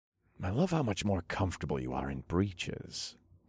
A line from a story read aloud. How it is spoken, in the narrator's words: I murmured against her jawline